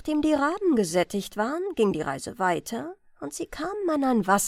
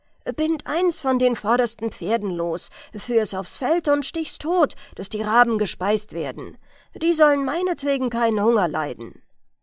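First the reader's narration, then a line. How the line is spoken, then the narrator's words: Calling out. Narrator (German): rief der Herr Fix und Fertig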